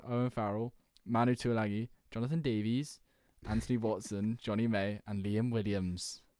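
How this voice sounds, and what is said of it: Put-on Welsh accent, fairly convincing. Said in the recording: “No, that was Welsh again ... your Welsh accent's actually quite good”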